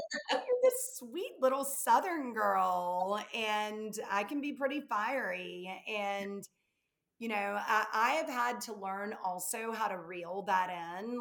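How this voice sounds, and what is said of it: Southern US accent. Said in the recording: “I'm from the South, if you can't tell from my accent.”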